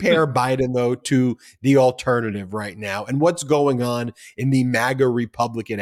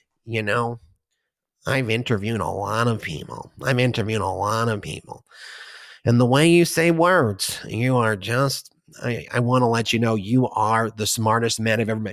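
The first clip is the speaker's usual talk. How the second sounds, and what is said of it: Imitates another person's voice. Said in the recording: “Mark Levin, who talks like that. My Mark Levin impression.”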